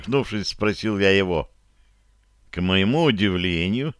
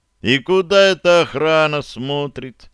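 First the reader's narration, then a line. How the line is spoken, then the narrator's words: Loud question. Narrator (Russian): громко поинтересовался я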